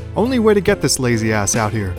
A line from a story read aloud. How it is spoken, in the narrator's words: she shouted over a freezing wind gust